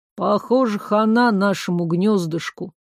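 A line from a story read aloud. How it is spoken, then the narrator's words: Gloomy chatterbox declaring. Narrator (Russian): мрачно заявил балабол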